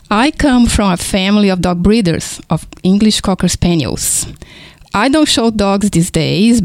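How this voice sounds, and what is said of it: Foreign Brazilian accent. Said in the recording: “my foreign accent, is because I was born in Brazil”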